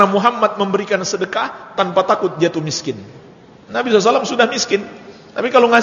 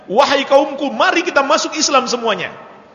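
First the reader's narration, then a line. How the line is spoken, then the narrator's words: Shouted. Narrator (Indonesian): dia berteriak di kampungnya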